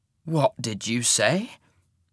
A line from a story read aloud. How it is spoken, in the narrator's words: rasped